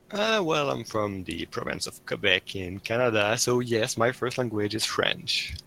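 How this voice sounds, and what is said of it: French-Canadian accent. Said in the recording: “With that accent of yours?”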